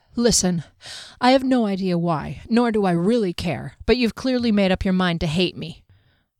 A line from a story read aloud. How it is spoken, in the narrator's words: Panting, she added